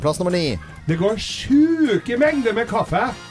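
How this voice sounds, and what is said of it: Broad Trøndelag dialect. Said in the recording (Norwegian): “med den dialekten? ... Avslepen trønder.”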